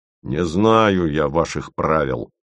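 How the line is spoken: Mechanical mutter. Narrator (Russian): пробурчал Вараксин совершенно уже по инерции

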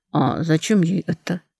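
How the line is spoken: Worried. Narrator (Russian): озабоченное

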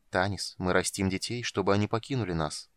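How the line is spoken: Calm. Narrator (Russian): спокойно произнес Даламар

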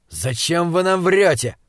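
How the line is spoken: Yell. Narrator (Russian): заорал он

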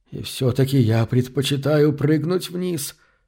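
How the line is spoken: Whisper. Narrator (Russian): прошептал он

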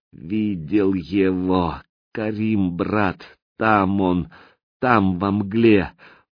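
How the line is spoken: Strained, clearer words. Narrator (Russian): с усилием выдавил более разборчиво

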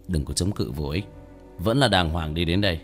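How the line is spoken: Sighing, calm. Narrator (Vietnamese): Tiểu Thất thở dài từ tốn

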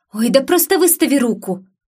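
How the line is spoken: Impatient exclamation. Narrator (Russian): воскликнула, не вытерпев

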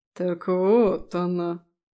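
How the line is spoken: Ambiguous drawl. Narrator (Russian): Неоднозначно протянул он

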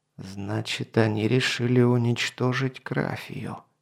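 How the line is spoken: Muttering. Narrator (Russian): пробормотал он

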